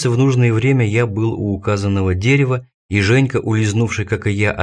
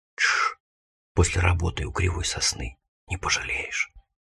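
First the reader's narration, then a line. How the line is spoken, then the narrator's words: Conspiratorial child's whisper. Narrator (Russian): лопоухий Женька, мой дружок, шепнул мне на ухо с заговорщицким видом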